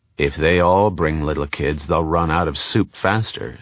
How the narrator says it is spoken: said Ashiel coldly

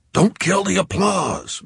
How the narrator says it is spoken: Mimi growled

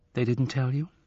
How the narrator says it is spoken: Her voice was calm, emotionless

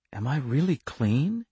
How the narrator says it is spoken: he whispered

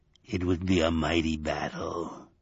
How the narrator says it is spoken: it told him in a glutinous voice

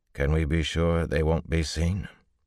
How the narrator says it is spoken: Rand replied calmly

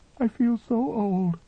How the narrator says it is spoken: she said, sobbing

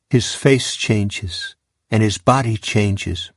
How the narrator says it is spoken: Brad said

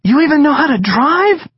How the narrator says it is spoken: the girl cried out loud, her voice shrill and excited

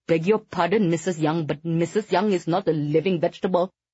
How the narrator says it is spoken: Vikram sputtered

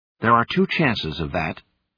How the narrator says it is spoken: snapped

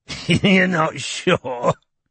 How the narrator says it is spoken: repeated Tom, with a short, nasty laugh

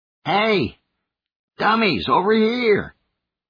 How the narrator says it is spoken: shouting

